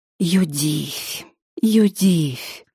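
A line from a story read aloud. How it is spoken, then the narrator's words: Whisper. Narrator (Russian): прошептал он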